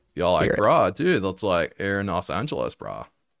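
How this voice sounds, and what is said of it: Bad put-on California surfer accent. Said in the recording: “a really bad California accent ... That's terrible. ... It needs some work.”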